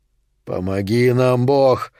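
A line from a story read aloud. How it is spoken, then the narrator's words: Breathed out. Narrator (Russian): выдохнул Сильвера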